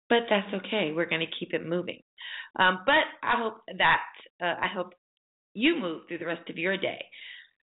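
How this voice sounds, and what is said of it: Raspy, hoarse voice. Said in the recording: “I'm sounding a little raspy this morning”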